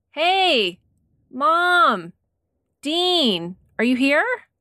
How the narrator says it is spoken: He started to yell out

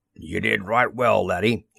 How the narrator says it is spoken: he rumbled

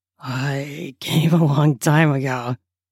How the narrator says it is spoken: he says through a chuckle

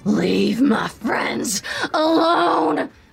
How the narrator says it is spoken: echo in her head painfully, screech

